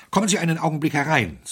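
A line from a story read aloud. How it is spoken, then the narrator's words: Breathless. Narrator (German): sagte Smythe atemlos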